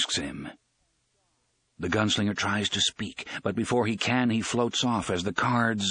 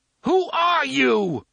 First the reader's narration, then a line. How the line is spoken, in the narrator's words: Eddie screams at him